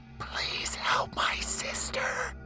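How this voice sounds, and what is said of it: Soft frightened female whisper, begging. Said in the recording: “a voice so soft and so frightened ... a whispering female begged from the depths of a sorrowful soul”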